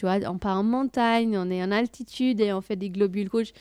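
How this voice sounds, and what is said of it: Speaks French with an accent. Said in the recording (French): “mon accent”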